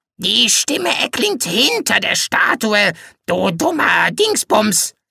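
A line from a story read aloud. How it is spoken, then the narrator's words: Croaking. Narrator (German): krächzte er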